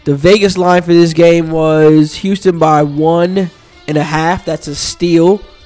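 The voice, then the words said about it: Voice rough from a cold. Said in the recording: “Excuse my sound ... I'm a little under the weather as far as my voice is concerned ... recovering from a little cold”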